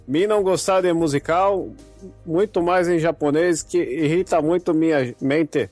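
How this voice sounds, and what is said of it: Caricatured Japanese accent, broken Portuguese. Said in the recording (Portuguese): “Você tá igual o índio falando. ... imitando um japonês, cara. tá fantástico.”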